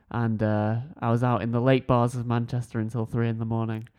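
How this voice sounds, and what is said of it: Hungover, low radio-style voice. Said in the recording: “I'm hungover... I'm a little hungover, but I think it's given me an excellent radio voice.”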